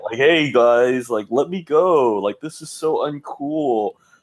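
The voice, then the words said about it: Napoleon Dynamite character impression. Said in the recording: “her best impression of Napoleon Dynamite”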